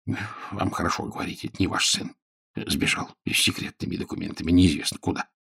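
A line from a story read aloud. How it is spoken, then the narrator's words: Grumbled. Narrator (Russian): буркнул тайный советник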